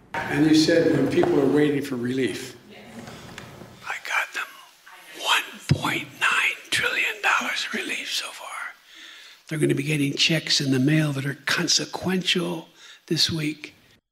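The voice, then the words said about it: Whispering. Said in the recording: “whisper ... whispering ... creepy”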